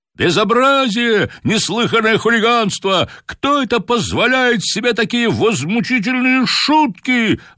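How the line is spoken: Excited crowd shouting. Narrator (Russian): возбужденно кричали

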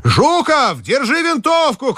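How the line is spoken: Shouted. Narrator (Russian): крикнул Телегин

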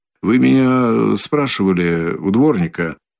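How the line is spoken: Very quiet, after delay. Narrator (Russian): проговорил, наконец, Раскольников, но как-то очень негромко

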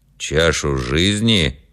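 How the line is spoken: Stern interruption. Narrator (Russian): строго перебил отец Кир

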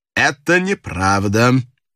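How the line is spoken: Cold, confident. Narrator (Russian): сказал холодно и уверенно Пинкертон

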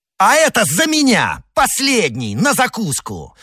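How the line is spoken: Furious shout. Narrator (Russian): в бешенстве крикнул Д'Артаньян

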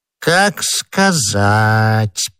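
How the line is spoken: Drawn-out drawl. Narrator (Russian): протянул Бонасье

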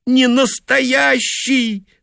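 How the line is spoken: Insisting through tears. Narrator (Russian): твердила она сквозь слезы

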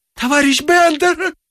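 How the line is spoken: Ecstatic shout. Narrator (Russian): закричала вдова в восторге

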